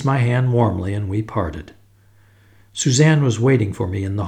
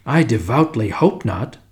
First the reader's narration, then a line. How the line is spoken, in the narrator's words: exclaimed Sir Eustace